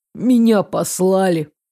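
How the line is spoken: Relieved exhale. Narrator (Russian): Саня, казалось, выдохнул с облегчением

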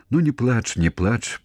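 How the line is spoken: Soothing, near tears. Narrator (Belarusian): пачаў супакойваць яго Якаў, хоць і сам гатоў быў заплакаць

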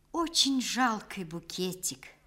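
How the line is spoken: Quiet, strained. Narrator (Russian): наконец тихо, с усилием проговорила Шура

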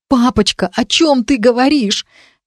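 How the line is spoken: Holding back sobs. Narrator (Russian): Я сжала руки, пытаясь сдержать рыдания, рвущиеся из груди

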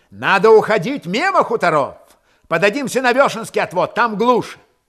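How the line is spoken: Shouted. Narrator (Russian): Чумаков крикнул

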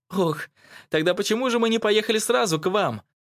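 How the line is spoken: Giggling behind a hand. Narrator (Russian): хихикнула мама, прикрывая рот ладошкой

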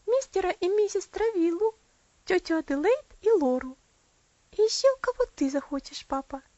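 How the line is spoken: Joyful answer. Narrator (Russian): ответила она радостно

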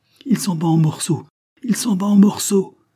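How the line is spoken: Voices exclaiming. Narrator (French): s'écria-t-on

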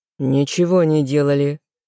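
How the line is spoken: Growled reply. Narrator (Russian): рыкнул в ответ внук бабушки Эммы

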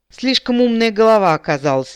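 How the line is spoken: Sigh. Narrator (Russian): вздохнул Эрин

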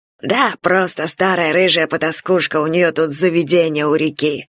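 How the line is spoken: Plain. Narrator (Russian): сказал Грэди

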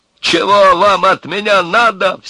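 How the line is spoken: Repeated shouting. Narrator (Russian): все кричал Сильченко

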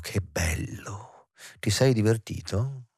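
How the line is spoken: Whispering. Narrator (Italian): lui bisbigliò

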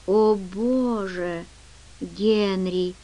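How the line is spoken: Whisper. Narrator (Russian): прошептал он

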